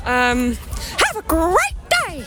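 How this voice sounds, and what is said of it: Cartoon mouse character voice. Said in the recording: “Do you want to say something else for us as Mickey Mouse?... That is absolutely outstanding.”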